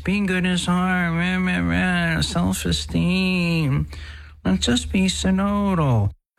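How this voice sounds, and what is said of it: Mocking whiny voice. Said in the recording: “when we hear that whiny voice ... That whiny voice”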